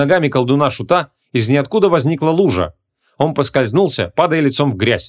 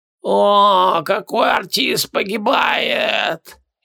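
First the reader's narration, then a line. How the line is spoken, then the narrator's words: Strained, barely audible. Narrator (Russian): Еле выдавил он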